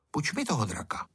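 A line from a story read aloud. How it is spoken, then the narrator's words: Said quietly. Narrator (Czech): pihovatý Ferda a řekl tiše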